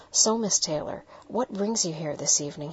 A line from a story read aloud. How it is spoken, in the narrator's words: he asked